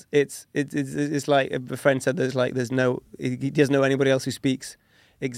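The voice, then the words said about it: Strong English accent, not quite RP. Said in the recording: “your English accent is still very strong ... I can't hear any Norwegian ... it's not quite RP”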